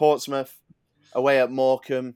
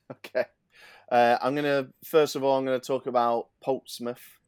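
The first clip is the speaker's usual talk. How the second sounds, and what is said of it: Put-on Essex accent. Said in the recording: “I don't know why I did an Essex accent then”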